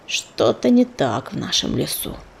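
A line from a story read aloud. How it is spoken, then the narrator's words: Bird's grumble. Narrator (Russian): проворчал коршун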